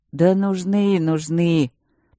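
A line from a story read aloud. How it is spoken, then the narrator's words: Drawn-out melancholy drawl. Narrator (Russian): протянул он тоскливо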